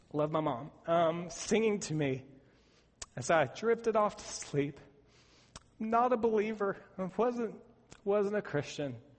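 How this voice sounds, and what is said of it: Emotional, choked-up voice. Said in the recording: “I don't know why I'm getting emotional.”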